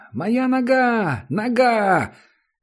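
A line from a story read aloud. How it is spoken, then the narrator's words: Distant high-pitched scream. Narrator (Russian): Кто-то далеко внизу закричал тонким голосом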